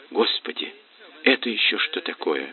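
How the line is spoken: Whisper. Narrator (Russian): шепнула Ирина

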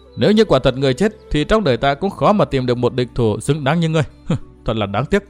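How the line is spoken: Sad sighing. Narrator (Vietnamese): Thượng quan Uyển Thanh thở dài buồn rầu đáp

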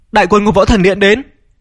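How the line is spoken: Shouted. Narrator (Vietnamese): có người kêu lên

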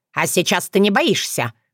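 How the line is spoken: Mocking, sharp, over phone speaker. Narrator (Russian): глумливо и резко прозвучал голос из динамика смартфона

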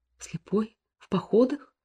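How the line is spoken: Frightened speech. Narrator (Russian): испуганно произнесла Анна Михайловна, которой сейчас же представился ее мальчик в страшной ночной сече

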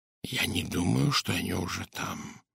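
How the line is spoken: Whisper. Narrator (Russian): прошептал Пуаро

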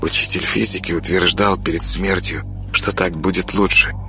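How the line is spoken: Quiet girl's voice. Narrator (Russian): тихо говорила девочка

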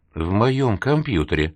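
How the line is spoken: Quiet whisper in ear. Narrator (Russian): тихо прошептал Веронике на ухо

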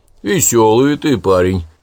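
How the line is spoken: Chuckling old man. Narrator (Russian): хохотнул дед Василий

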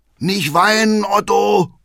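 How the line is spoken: Father calling out. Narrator (German): ruft Vater

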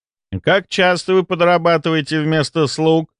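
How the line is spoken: Heir asking too loudly. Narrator (Russian): чересчур громко спросил наследник

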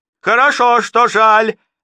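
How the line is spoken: Shout. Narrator (Russian): закричала она

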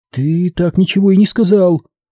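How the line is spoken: Uncertain. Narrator (Russian): неуверенно произнесла она

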